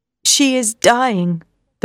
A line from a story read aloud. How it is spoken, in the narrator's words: the professor said sadly